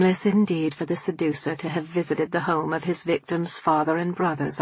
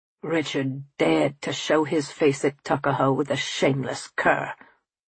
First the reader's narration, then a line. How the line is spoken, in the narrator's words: as if he could scarcely contain his pounding heart, Tom growled out